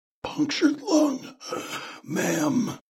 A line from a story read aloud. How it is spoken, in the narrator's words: Aegis rasped